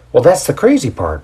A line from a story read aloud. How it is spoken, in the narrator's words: Paul says with a giddy laugh